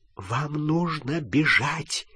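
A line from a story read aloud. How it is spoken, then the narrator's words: Whisper. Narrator (Russian): прошептала профессор МакГонагал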